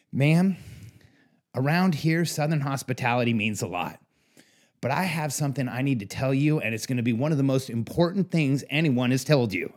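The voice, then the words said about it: Weak put-on Southern accent. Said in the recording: “I'm doing my best Southern accent ... I'm terrible at a Southern accent”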